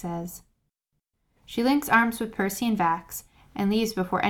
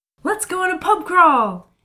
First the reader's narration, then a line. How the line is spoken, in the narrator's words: Kayla says excitedly